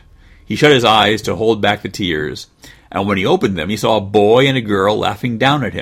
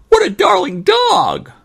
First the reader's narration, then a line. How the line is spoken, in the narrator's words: cried the girl